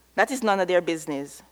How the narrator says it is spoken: True says too quickly

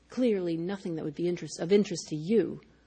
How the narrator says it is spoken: muttered

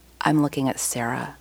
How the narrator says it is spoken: Joelle says huskily, her voice almost a whisper

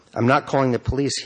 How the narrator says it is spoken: he said

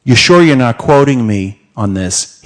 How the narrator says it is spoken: asked

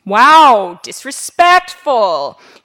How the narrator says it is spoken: she once shouted

